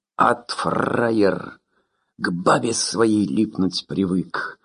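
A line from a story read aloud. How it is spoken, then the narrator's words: Growling. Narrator (Russian): рычал Шорохов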